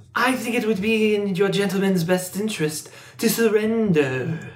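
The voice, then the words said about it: Creepy snake-like character accent. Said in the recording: “New accent alert. ... here comes the snake ... that's creepy ... That's really unsettling.”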